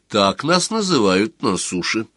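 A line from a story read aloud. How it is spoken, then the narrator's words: Calm girl. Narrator (Russian): спокойно сказала девушка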